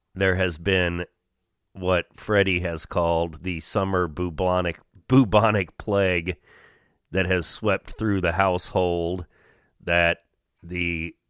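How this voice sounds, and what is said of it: Sick-sounding voice. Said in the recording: “you can probably tell in my voice”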